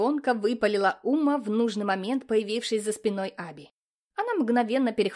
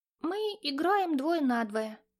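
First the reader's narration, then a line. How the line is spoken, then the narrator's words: Unsure. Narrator (Russian): неуверенно сказал Аби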